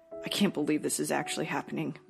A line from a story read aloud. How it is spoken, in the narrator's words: muttered Roger